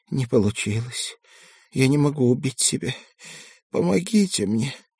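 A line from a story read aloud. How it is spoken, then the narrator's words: Hoarse. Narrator (Russian): сипло сказала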